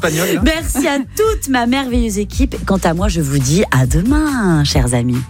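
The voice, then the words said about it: Put-on Spanish accent. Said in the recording (French): “J'avais envie de faire un petit accent espagnol pour conclure cette émission.”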